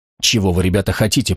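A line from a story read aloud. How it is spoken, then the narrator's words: Whispering. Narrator (Russian): прошептал Стоун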